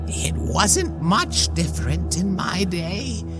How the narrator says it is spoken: she croaked as she smiled a toothy grin

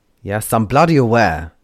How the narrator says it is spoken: Crow roared

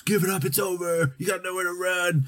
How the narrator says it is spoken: he shouts, Sarandon shouts

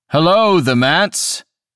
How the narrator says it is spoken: he called out

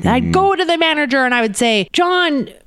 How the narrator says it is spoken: Brad yelled at me

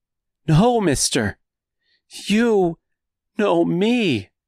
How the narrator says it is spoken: cried out Dorothy number one in the same pleading voice

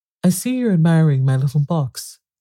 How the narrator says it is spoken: the knight said in a friendly tone

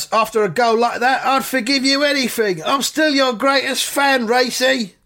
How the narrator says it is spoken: he shouts

